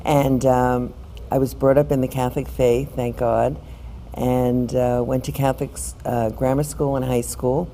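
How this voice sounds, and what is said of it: New York accent. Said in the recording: “you'll be able to tell from my accent that I'm from New York”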